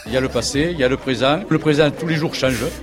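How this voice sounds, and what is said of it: French with a Chinese accent. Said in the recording (French): “Qui a un bel accent chinois.”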